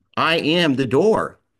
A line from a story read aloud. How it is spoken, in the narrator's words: says